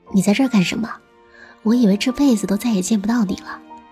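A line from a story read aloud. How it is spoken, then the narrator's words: Cheerful smiling. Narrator (Chinese): 黄子 笑嘻嘻地说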